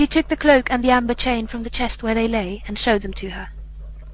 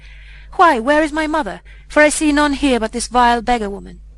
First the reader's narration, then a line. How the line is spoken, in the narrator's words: he laughed scornfully, and said